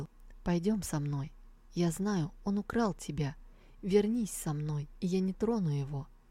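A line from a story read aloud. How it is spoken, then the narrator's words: Gentle. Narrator (Russian): он мягко проговорил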